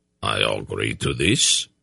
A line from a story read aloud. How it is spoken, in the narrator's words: Mandorallan replied gravely